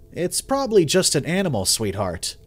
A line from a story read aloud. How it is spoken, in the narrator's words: reassured her, my voice carrying a calm certainty